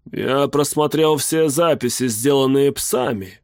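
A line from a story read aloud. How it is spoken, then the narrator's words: Plain. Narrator (Russian): сказал он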